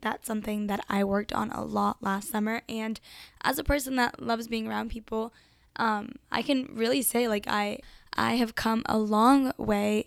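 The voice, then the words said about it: Raspy, strained voice. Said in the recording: “sorry about my voice. I feel like it is raspier than ever ... It really hurts to speak right now”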